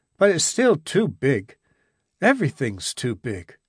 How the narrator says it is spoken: he said sadly

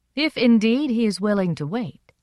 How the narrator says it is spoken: said coolly

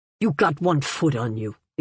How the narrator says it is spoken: the old woman said in a disgusted tone

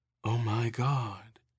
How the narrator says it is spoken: Erin said softly

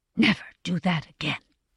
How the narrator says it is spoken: she whispered

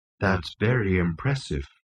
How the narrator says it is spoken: murmured Marvin

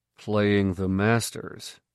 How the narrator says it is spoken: he said dryly

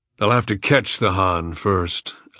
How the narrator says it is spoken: Agat growled in reply

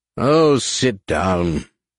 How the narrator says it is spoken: Horror said irritably

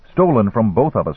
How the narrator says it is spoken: One Thumb said

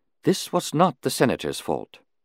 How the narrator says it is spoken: Shumai put in quietly

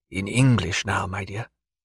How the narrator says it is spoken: murmured

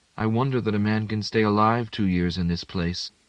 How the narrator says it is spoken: said in an even voice, smiling a little to Konevin

